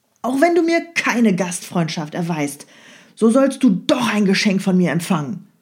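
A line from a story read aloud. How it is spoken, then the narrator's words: Angry shout. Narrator (German): Perseus rief zornig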